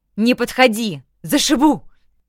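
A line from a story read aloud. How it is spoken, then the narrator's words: Desperate shout for help. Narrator (Russian): Прокричала в надежде, что меня кто-то услышит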